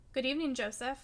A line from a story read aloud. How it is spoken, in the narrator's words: I said coldly